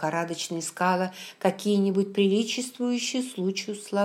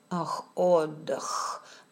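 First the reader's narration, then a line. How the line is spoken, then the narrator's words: Muttered under breath. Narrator (Russian): пробормотал Макдональд себе под нос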